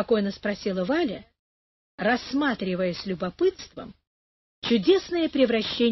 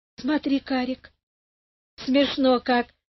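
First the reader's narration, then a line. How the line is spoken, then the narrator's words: Laughing. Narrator (Russian): засмеялась она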